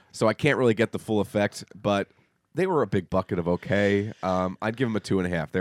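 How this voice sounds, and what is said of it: Congested voice from a cold. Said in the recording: “I have a cold. I'm sure you can tell by the sound of my crappy voice”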